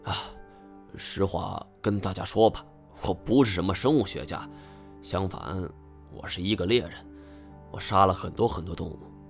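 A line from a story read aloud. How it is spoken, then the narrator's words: Confessing sigh. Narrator (Chinese): 我已经隐瞒不下去了，我长叹一声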